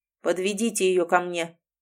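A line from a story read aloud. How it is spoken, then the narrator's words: Cold commanding demand. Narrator (Russian): холодно потребовал повелитель зла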